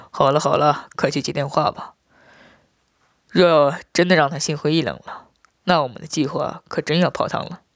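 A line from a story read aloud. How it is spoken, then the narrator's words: Coquettish laugh. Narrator (Chinese): 马七娇笑着，说道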